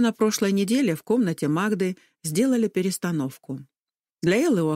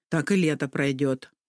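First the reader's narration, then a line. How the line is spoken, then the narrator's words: Grumble. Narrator (Russian): проворчала Магда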